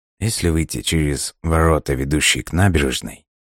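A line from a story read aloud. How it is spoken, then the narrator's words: Quiet continuation. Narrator (Russian): тихо продолжал Фостер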